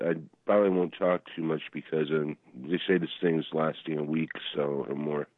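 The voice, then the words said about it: Rough, sick-sounding voice. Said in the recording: “you can hear from my voice ... you're a little rough ... Rough, yeah, under the weather”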